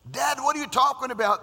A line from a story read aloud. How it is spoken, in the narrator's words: the son screams